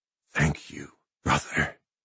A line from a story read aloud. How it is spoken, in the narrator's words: he breathed